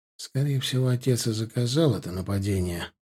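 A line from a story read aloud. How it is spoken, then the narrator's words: Whisper in ear. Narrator (Russian): прошептал я на ухо Корнеллу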